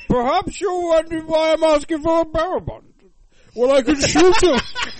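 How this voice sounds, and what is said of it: Bane impression voice. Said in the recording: “first Bane impression of the year”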